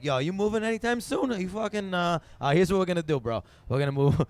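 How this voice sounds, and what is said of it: Put-on Italian American accent. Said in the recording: “hearing you do an Italian”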